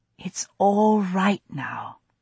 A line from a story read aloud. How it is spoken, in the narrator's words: I heard myself saying, and my voice was soothing, all trace of panic gone